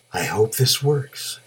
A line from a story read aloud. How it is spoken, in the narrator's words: whispered